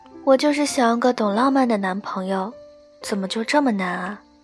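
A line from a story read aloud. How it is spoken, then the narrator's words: Sighing. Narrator (Chinese): 朝阳叹口气说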